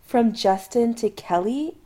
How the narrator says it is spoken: Adam shrieks

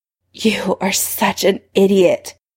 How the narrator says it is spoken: he panted, with an expression of the purest loathing

